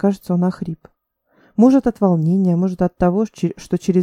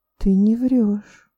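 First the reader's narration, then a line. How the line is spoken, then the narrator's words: Muffled, surprised pronouncement. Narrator (Russian): изрекла она глухо и удивлённо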